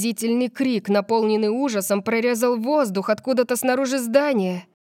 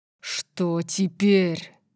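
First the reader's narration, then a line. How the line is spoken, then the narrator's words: Growled. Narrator (Russian): Орион зарычал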